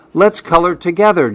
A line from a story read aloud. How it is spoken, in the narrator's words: Jamie says